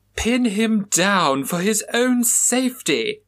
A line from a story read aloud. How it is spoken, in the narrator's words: cried Mildred Morrison